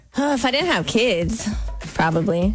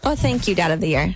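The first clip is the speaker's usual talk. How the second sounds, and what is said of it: Sarcastic tone. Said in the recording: “That was sarcasm.”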